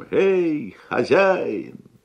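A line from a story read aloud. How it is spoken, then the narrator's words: Loud booming shout. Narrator (Russian): крикнул своим зычным голосом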